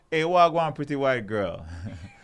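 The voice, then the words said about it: Put-on Jamaican accent. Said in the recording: “speaking Jamaican”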